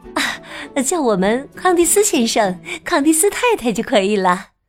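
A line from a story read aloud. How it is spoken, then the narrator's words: Suppressing a smile. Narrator (Chinese): 卡拉强忍住嘴角的笑意，说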